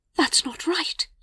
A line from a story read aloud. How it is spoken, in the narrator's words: she whispered